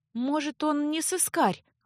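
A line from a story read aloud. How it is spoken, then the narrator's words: Timid defense. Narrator (Russian): Робко попыталась защитить незнакомца Леа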